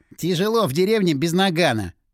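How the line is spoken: Short laugh. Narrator (Russian): хохотнул Напалм

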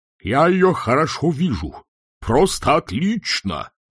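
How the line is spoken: Dean yelling. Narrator (Russian): завопил декан

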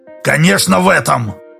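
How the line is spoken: Sharp. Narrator (Russian): резко сказал Краюхин

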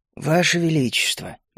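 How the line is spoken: Gentle interruption. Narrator (Russian): мягко перебил я

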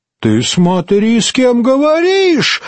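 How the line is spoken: Shriek. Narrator (Russian): взвизгнула Формоза

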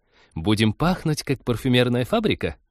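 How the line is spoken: Giggling. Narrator (Russian): хихикнула Полина

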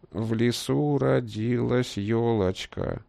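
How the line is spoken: Quavering, creaky voice. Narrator (Russian): дребезжащим голосом проскрипел он

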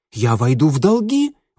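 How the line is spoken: Exclaiming. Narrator (Russian): воскликнула Короли

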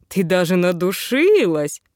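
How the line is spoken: Grumbling. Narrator (Russian): проворчала я

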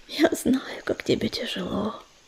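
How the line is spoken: Whispered. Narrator (Russian): прошептала она

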